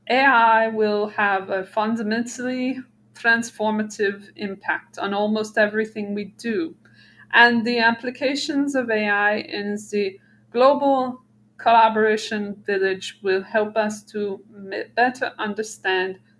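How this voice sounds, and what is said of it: Imitation of Klaus Schwab's accent. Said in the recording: “I can't do his accent anymore... I tried. That was the best I can do.”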